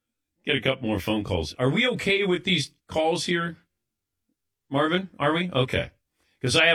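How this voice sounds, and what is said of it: Usual voice. Nothing is said of it.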